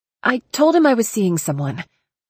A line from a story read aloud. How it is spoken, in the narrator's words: I blurted